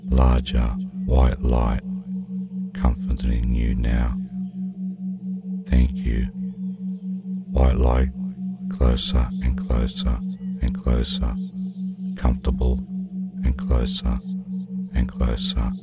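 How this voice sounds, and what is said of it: Soft voice growing steadily quieter. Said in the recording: “as my voice becomes quieter and quieter ... as my voice becomes less ... As my voice is quieter ... As my voice becomes quieter”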